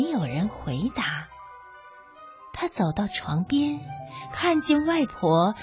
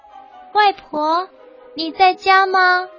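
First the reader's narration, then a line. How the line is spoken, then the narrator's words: Frightened little girl calling. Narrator (Chinese): 小女孩害怕起来，她喊着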